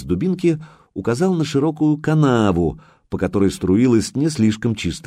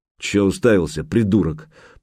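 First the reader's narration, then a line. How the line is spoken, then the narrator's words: Grumbling. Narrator (Russian): проворчал Гучко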